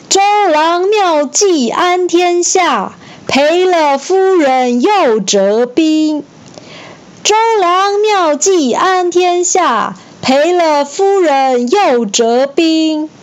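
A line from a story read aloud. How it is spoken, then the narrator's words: Soldiers shouting together. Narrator (Chinese): 船上的蜀国士兵…对着江边无可奈何的周瑜大声呐喊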